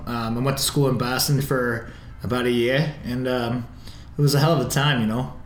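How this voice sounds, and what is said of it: Boston accent. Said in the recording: “Besides just doing the accent on occasion? ... this is a real accent”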